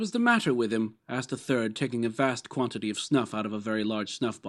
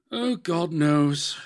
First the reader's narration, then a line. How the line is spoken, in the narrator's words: said, with a yawn